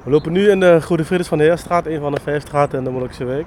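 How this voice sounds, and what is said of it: Maastricht regional Dutch accent. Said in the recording (Dutch): “Onmiskenbaar Maastricht te horen aan het accent. ... die accent zit er sowieso in”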